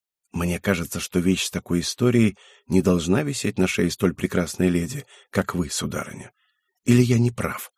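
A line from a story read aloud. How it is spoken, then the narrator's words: Whispered. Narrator (Russian): прошептал я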